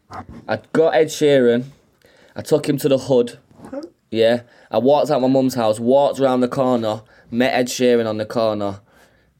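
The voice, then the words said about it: Manchester accent. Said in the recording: “my Manchester accent”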